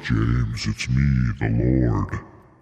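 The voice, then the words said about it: Deliberately lowered voice playing the Lord. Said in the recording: “I have to make my voice lower... Yeah, like this.”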